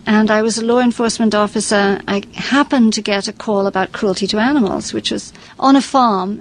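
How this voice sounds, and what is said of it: English accent. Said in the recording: “your accent? ... I'm English originally”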